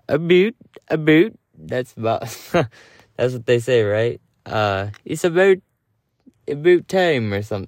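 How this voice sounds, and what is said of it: Bad imitation Canadian accent. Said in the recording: “my Canadian accent is terrible”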